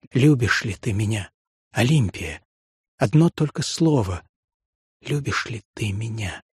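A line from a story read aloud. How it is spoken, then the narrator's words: Whisper. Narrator (Russian): шептал Натанаэль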